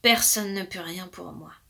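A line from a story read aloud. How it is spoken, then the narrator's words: King speaking sadly. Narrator (French): dit tristement le roi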